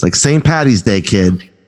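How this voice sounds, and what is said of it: Put-on Boston accent. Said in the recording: “I should put in my Boston accent for this”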